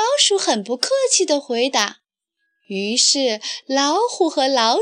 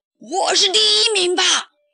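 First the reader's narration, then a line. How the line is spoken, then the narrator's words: Confident roar. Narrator (Chinese): 老虎很自信地吼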